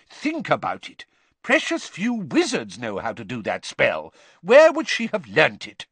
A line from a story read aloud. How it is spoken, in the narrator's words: Weasley loudly